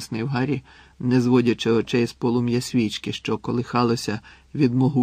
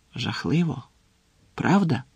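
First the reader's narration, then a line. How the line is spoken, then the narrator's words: Near-whispered question. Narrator (Ukrainian): Ледь чи не пошепки перепитав Гаррі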